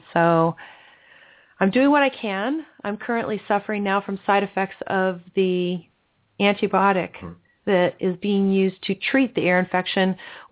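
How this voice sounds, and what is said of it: Sick, strained voice. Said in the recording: “I apologize for my voice. I have been sick for quite a long time.”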